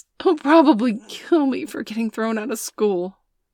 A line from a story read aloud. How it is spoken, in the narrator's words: Bailey sobbed